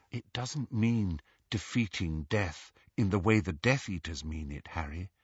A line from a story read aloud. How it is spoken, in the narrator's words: said Hermione, her voice gentle